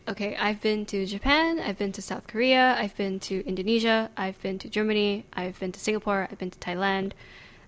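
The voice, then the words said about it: American-sounding accent. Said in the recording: “Despite this accent, I've never been.”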